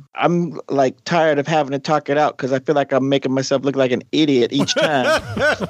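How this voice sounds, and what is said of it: Deepening hood accent. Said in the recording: “the hood accent started to come out ... that accent is getting deeper ... He dropped his corporate code switching”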